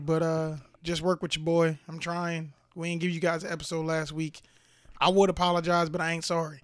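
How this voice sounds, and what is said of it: Raspy voice. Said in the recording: “If you hear my voice, I am a little raspy ... Definitely a little raspy”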